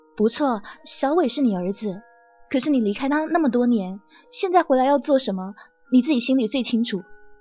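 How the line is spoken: Fairly calm. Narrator (Chinese): 季小姐的声音还算镇定，她说

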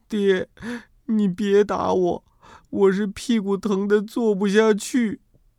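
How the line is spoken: Crying. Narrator (Chinese): 他先哭了，哭着对我说

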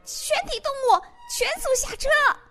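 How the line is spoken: Rooster shouting repeatedly. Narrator (Chinese): 公鸡一遍又一遍的在驴耳朵边大叫

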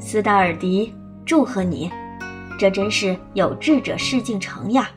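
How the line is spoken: Smiling teacher. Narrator (Chinese): 老师 笑着说

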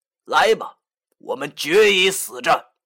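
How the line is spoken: Weak laugh, then fierce. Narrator (Chinese): 母月狐忽然好像无力的笑了一下

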